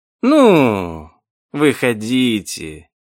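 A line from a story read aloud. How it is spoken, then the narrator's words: Purring. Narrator (Russian): промурлыкал мистер Дарк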